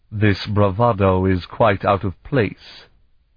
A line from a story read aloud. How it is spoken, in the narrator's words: he said to Elana coldly, in a voice loaded with contempt